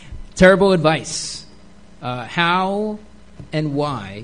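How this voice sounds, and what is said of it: Usual voice. Nothing is said of it.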